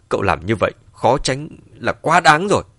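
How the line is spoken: Angry through gritted teeth. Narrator (Vietnamese): Lê Chiết trên mặt mang theo vài phần giận dữ, nghiến lặng nghiến lợi nói

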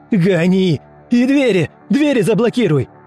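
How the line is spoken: Yelling. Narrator (Russian): Заорал

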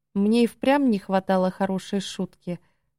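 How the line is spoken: Said with gentle smile. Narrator (Russian): сказал он, мягко улыбаясь

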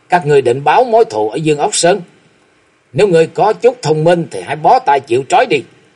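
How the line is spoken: Angry booming laughter. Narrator (Vietnamese): Thạch Mộng nổi giận bật cười ha hả

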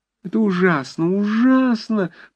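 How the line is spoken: Moaning. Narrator (Russian): простонала такса

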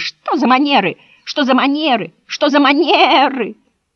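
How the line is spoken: Sheep shouting. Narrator (Russian): кричали овцы

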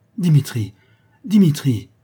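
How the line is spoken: Trembling exclamation. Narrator (French): s'écria mademoiselle Bochet tremblante

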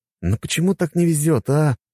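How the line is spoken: Exclaiming. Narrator (Russian): воскликнул я

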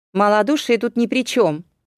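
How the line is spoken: Shouted. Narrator (Russian): выкрикнул Пифокл наварх левкатцев

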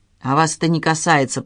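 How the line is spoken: Grumble. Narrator (Russian): проворчал Виктор

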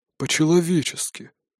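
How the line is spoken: Ghost grumbling. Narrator (Russian): буркнул призрак

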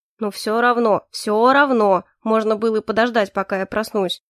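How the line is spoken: Grumbling. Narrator (Russian): продолжал ворчать Калипсо

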